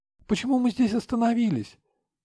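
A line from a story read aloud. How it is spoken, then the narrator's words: Frightened question. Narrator (Russian): испуганно спрашивает Сабина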